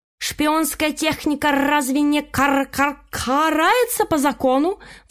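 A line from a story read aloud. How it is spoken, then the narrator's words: Indignant question. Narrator (Russian): Возмущенно поинтересовалась ученица Ворона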